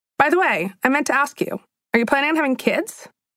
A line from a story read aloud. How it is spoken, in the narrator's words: Violet said all of this in the casual tone someone might use to ask if you're planning on watching the new season of The Bachelor